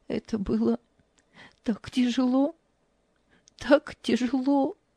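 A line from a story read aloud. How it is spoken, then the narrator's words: Tearful. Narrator (Russian): Ева сквозь слезы произнесла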